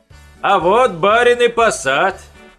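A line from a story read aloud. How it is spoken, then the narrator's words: Shouting out. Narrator (Russian): выкрикнул перхуша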